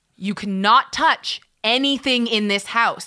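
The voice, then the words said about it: Stern authoritative dad voice. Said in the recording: “I have a great supervisor voice... the dad voice”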